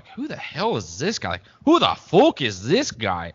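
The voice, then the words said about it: Put-on accent, poorly done. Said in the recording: “Terrible accent”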